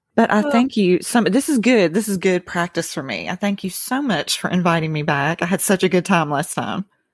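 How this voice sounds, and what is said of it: Southern American accent. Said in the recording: “matching your accent. Because when I hear a good Southern accent,”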